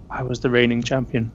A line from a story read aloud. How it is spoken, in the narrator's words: you hear her whisper